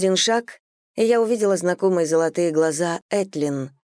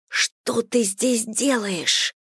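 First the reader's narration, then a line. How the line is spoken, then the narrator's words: Hissing. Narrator (Russian): прошипела я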